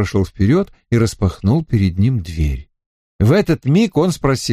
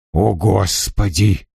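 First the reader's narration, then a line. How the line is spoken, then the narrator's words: Muttered. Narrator (Russian): пробормотал он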